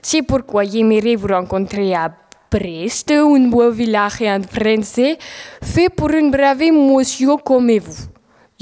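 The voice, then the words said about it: Clumsy accented French. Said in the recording (French): “ton accent français, lui, va pas très très vite”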